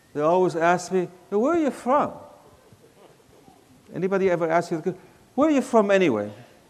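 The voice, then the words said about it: Mixed accent, neither southern nor northern. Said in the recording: “my accent, which is really not southern, not northern, it's just a mixture of things”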